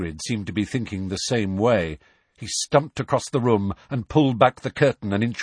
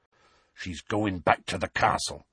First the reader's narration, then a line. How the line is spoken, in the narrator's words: he said in a low voice